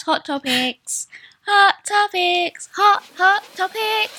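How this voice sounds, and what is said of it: Put-on British accent. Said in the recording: “That sounded very British”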